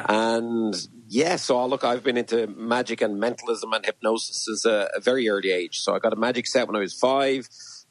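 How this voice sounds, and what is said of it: Irish accent. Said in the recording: “I love your accent ... based out of Kildare in Ireland”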